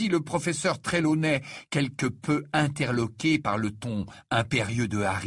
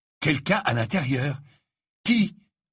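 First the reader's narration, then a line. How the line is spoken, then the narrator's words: Urgent questioning voice. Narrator (French): interrogea Harry d'une voix pressante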